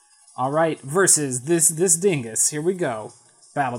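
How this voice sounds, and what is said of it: Usual voice. Nothing is said of it.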